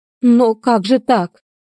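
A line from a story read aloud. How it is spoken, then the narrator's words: Exclaiming. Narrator (Russian): воскликнула напоследок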